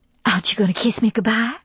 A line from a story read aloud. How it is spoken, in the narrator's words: she whispered, mindful of the ears of the house